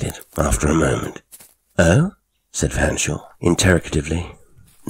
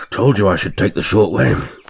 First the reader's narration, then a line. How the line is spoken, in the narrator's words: panted the squire